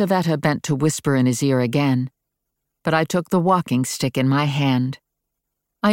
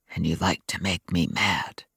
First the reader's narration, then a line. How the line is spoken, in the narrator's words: Adam said in a whisper